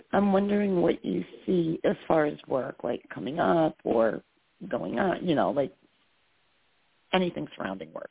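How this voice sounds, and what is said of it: Slightly hoarse voice. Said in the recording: “my voice is a little hoarse... forgive my voice”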